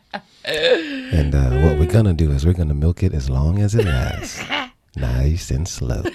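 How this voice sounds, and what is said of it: Husky sexy-sounding voice. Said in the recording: “We even got a brand new sexy voice for you ... getting over a fever ... this is my brand new co-host voice”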